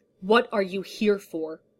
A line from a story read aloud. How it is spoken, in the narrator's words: thundered, his voice low and gravelly